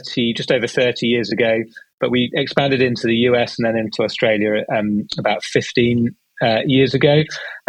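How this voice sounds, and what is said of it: British accent. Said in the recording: “Started in the UK, as you can tell from my accent”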